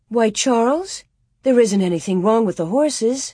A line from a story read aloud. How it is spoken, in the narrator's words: Ma exclaimed